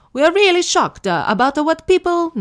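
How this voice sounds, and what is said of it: Put-on Italian Mario-style accent. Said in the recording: “Can I do an Italian accent? ... I'm just doing like a Mario Brothers accent”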